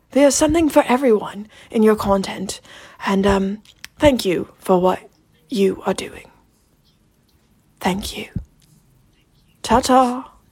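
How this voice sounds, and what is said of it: Imitated English voice, shifting midway. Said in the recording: “my best Watchfinder impression ... you went full Keanu halfway through ... somewhere between David Attenborough and some random English bloke”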